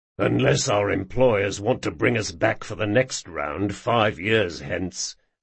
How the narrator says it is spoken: muttered Jean

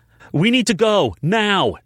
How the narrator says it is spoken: Nash yelled

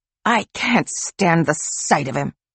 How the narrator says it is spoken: she hissed

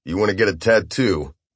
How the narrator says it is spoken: I said flatly

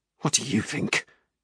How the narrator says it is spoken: he'd muttered

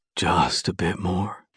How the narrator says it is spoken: he whispers in my ear

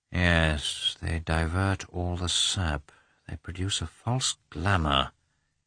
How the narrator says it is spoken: he muttered

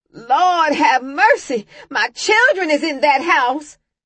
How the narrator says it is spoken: Mama was screaming

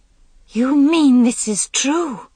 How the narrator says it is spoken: Guinevere cried out

